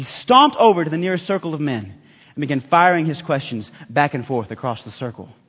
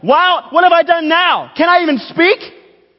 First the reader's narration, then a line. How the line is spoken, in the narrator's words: Suddenly he shouted